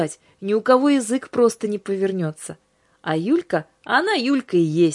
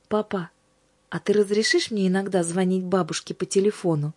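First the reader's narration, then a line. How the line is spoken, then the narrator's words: Quiet question. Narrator (Russian): она тихо спросила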